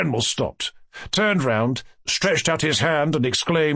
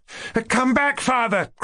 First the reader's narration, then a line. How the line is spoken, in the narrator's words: cried Varya